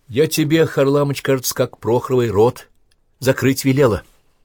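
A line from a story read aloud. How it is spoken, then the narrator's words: Sharp scolding shout. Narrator (Russian): Наталья прикрикнула на него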